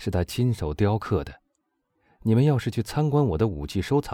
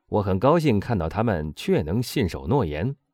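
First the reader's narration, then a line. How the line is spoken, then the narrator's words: Laughing heartily. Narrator (Chinese): 波上大笑着说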